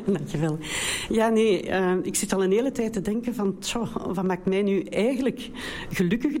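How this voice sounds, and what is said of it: Belgian Brussels Dutch accent. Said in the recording (Dutch): “ik kom uit België, de enige, dus een beetje een ander accent. ... Brusselse.”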